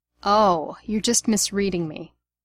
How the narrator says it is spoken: Remus said sarcastically

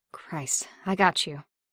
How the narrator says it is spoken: Barnes managed

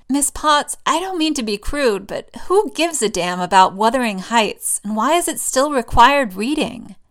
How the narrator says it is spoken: She laughs

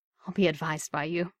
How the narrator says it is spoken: he said, a little breathlessly

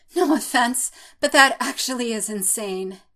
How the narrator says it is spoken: he pants

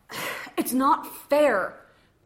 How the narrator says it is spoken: Khan groaned

